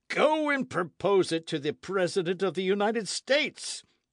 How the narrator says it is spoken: cried J

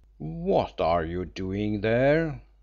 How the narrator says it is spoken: demanded Rolfe sternly

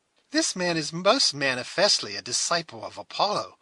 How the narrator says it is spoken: cried the amused Alice

